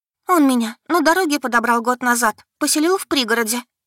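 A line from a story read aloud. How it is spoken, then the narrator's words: Hurried. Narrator (Russian): заявила она торопливо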